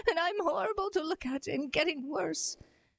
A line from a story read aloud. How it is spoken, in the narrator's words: sobbed the disguised queen